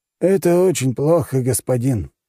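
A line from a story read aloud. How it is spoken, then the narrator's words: Village elder, uncertain. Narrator (Russian): неуверенно проговорил староста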